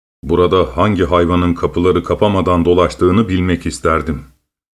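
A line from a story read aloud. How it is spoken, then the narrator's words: Angry grumbling. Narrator (Turkish): diye kızgın kızgın homurdanır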